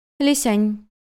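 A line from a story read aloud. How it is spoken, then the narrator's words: Flat, colorless call. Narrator (Russian): бесцветным голосом позвала Юнь-Юнь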